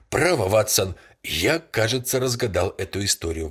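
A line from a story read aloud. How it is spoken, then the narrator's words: Exclamation. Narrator (Russian): воскликнул он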